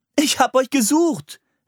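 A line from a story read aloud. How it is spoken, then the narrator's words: Called out. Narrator (German): rief sie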